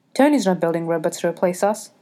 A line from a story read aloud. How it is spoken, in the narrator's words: Steve says quickly